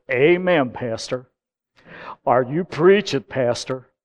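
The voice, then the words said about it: Imitates a big American accent. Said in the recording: “that big American accent”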